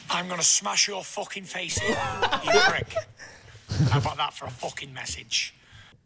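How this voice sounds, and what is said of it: Strong accent, angry speech. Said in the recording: “his accent is so funny ... He's talking like when he's like angry”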